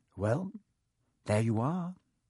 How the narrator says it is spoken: Harry said quietly

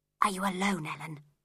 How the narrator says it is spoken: whispered

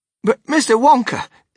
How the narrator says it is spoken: stammered Grandpa Joe

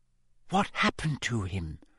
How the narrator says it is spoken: Hermione whispered

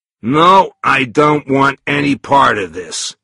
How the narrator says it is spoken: he said firmly

